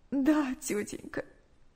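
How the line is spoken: Tearful answer. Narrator (Russian): сквозь слезы ответила Наташа

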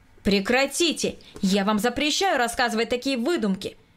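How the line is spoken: Louder shout. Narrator (Russian): Громче прежнего прокричал Николай Васильевич

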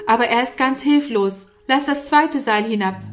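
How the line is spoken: Calling upward. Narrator (German): rief Norman herauf

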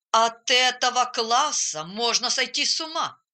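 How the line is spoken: Grumbling. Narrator (Russian): разворчался он

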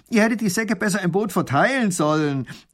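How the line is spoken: Called out. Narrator (German): ruft der Räuber

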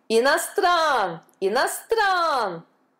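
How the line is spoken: Crowd yelling. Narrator (Russian): вопили индусы

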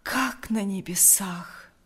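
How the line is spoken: Breathed out. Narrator (Russian): выдохнул Лукьян

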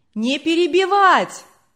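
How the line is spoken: Shouting from back rows. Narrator (Russian): кричали на задних рядах

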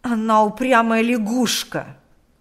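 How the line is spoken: Angry woman's reply. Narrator (Russian): злобно отвечала хозяйка

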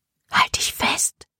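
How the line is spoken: Whisper. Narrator (German): flüsterte Libby Serena zu

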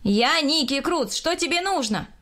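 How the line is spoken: Shout. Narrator (Russian): крикнул я

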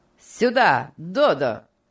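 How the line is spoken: Commanding shout. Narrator (Russian): повелительно крикнул Энрик

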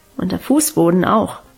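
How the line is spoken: Murmuring. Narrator (German): murmelte sie

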